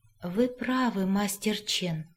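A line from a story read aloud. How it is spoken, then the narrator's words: Quiet. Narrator (Russian): наконец тихо произнес он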